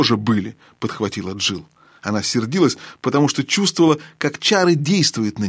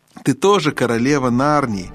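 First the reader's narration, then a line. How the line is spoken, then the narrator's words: Mocking yet tender. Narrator (Russian): насмешливо и ласково спросила колдунья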